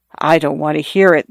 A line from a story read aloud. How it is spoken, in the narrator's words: the young lady said in a low voice